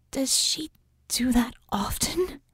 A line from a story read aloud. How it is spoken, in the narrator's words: the little mage finally whispered